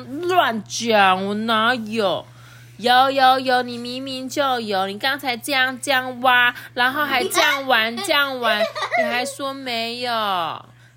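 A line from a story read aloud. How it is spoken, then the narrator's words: Loud. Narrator (Chinese): 这江天赋大声的说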